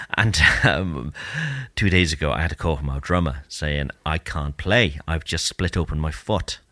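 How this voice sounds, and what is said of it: Strained, worn-out voice. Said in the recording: “my voice is buggered because my band has been rehearsing”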